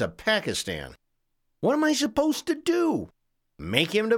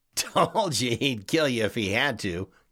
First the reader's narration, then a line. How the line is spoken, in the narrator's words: Kevin laughed